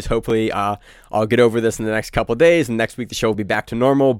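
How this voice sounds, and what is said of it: Sick-sounding voice. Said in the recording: “Doing terrible. You probably hear it in my voice. I've been coughing for a couple of days”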